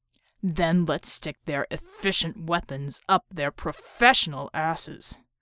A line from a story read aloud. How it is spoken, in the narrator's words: growled Leader